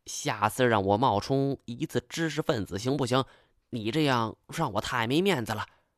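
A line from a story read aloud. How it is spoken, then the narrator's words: Whispered mutter in ear. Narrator (Chinese): 金锁小声在我耳边嘀咕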